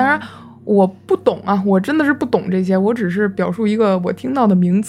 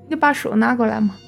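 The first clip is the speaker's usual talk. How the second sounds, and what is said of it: Imitated northwestern Chinese accent. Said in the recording (Chinese): “她说话的时候完全换了一个口音。...换了陕西的口音...西北方的那种口音吧...绝对就不是河北口音了...我只是大概学一下。”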